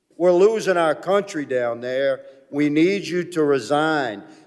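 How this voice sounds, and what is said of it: Very pronounced Cajun accent. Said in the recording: “Great accent, by the way. ... that was a very pronounced Cajun accent”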